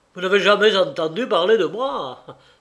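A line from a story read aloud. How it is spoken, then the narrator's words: Shouting. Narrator (French): s'écria-t-il enfin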